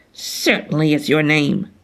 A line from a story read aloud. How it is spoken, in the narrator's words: said the demon irritably